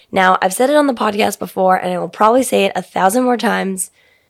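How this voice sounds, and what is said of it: Raspy voice. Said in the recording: “my voice, which is even a little bit more raspy than normal”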